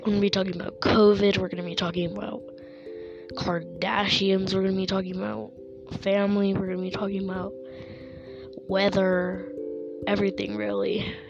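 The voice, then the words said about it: Sick, rough-sounding voice. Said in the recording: “I'm a little sick right now, so I sound terrible”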